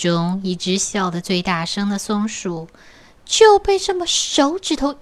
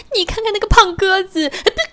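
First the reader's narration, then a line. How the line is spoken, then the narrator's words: Happy chirping laugh. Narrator (Chinese): 松鼠啊，还正在那吱吱喳喳、吱吱喳喳的开心的笑，说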